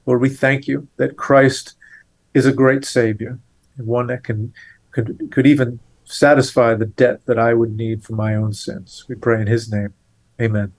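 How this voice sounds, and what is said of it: Thick Boston accent. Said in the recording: “you could probably tell just by listening to his accent that ... is from around here. He is a New Englander. You can tell with that thick Boston accent.”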